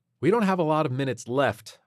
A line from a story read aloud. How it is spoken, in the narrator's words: Ariana said irritably